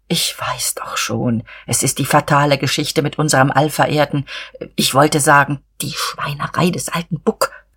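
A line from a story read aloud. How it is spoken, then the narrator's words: Confidential whisper. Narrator (German): flüsterte er vertraulich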